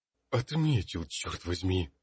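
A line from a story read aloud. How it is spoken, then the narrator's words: Exclaimed. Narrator (Russian): воскликнул магистр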